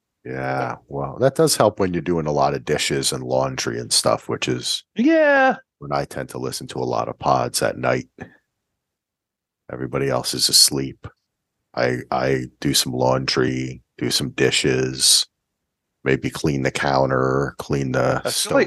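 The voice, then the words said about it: Sexy, seductive voice. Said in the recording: “seducing me with your sexy voice”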